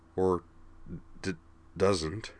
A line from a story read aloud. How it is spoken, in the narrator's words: Kate replied quietly